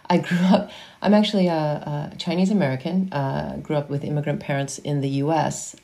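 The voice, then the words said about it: American accent. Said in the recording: “accent, an American accent,”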